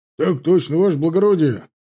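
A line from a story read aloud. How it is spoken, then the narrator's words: Barked in unison. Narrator (Russian): рявкнул строй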